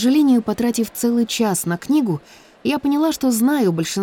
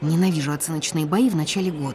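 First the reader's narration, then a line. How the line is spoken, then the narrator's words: Muttering. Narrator (Russian): пробормотала я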